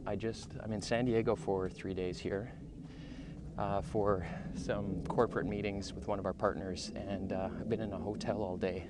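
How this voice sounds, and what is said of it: Out of breath, panting speech. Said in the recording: “I sound out of breath ... I'm a little bit out of breath”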